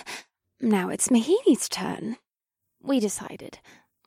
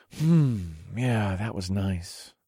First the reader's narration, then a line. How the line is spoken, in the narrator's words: I murmured